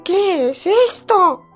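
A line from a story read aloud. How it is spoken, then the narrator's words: Frightened mother shouting. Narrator (Spanish): gritó la madre asustada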